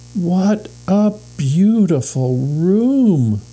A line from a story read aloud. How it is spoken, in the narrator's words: cried Violet